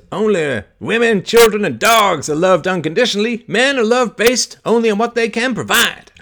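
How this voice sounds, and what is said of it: Weak Chris Rock impression. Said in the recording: “I don't do a very good Chris Rock imitation because my throat still functions”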